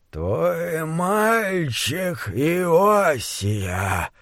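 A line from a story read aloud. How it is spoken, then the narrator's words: Creaky rough voice. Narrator (Russian): скрипучим грубым голосом сказал Чарли Мэнкс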